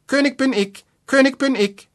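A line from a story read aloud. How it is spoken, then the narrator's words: High piercing call. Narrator (German): rief unten mit feiner, durchdringender Stimme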